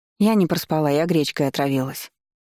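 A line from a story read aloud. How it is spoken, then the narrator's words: Gloomy. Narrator (Russian): мрачно сказала я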